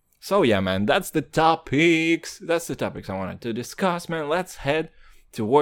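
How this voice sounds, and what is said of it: Usual voice. Nothing is said of it.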